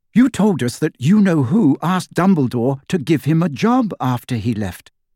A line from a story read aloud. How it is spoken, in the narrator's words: said Hermione